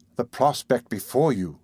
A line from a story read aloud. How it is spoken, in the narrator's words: answered Rose, firmly